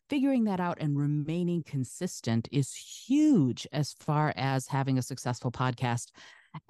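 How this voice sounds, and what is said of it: Smooth, melodious radio voice. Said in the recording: “you have such a radio voice ... I cultivate a speaking voice that is a little bit more, I would say, melodious, and people say smooth”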